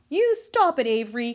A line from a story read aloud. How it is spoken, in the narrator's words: cried Fern